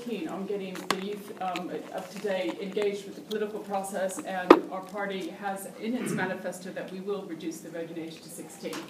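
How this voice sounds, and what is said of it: American accent. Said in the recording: “you hear the American accent”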